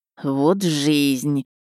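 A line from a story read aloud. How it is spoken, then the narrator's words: Drawling. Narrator (Russian): протянул Полторашин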